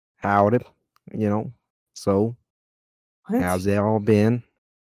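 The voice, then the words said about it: Put-on Texas drawl. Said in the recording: “it's better than your accent ... No, it's actually a lot worse, man. I couldn't even understand what you were saying ... I think I got the better Texas drawl ... I'm talking like this”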